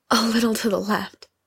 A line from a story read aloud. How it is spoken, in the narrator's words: Lindsay panted